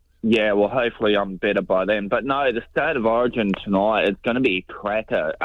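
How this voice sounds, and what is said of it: Congested, blocked-nose voice. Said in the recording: “Sorry about my voice. I've just got a blocked nose and that, so I might have come down with a cold.”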